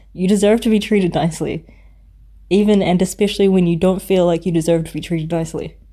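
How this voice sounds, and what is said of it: Strained, failing voice. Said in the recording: “my voice has given out”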